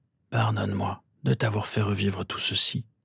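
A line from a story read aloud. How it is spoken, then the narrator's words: Aged man murmuring. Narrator (French): murmura l'homme qui maintenant faisait son âge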